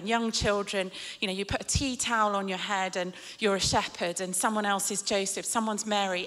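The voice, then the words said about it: British English accent. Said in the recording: “in Britain, where you can probably tell from my accent I live”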